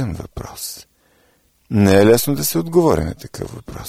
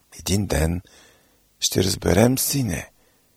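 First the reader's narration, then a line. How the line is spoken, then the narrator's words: Quiet. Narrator (Bulgarian): тихо продума тя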